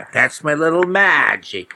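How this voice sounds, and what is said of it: Bad New England accent. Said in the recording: “He had a very bad New England accent.”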